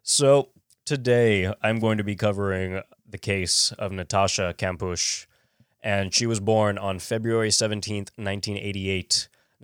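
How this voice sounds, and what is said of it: Monotone, slightly congested sick voice. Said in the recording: “I hope I don't sound like shit and I'm going to be a little monotone right now ... my throat's a little off. Nose a little off.”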